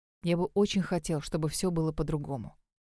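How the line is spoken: Whisper. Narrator (Russian): прошептал он

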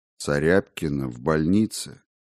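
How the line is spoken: Uncertain repetition. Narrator (Russian): неуверенно повторил Лобанов

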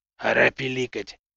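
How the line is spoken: Whispering. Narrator (Russian): шепнул Норк

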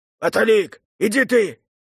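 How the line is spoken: Shouted. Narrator (Russian): крикнул Игнат

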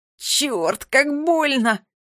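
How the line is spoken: Pained moan. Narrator (Russian): простонал он

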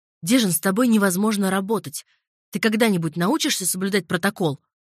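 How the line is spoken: Barking, angry boss. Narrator (Russian): рявкнул начальник отдела

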